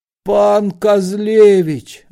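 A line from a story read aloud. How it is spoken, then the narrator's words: Groaning chorus. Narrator (Russian): застонали ксензы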